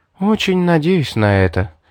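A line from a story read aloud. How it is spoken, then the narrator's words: Resigned sigh. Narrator (Russian): вздохнула девушка, поняв, что все равно не выйдет привести себя в прежний вид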